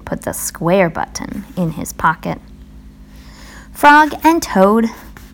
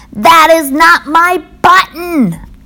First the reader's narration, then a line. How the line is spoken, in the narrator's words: shouted